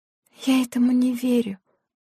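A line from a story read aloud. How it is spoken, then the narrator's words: Whisper. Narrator (Russian): прошептала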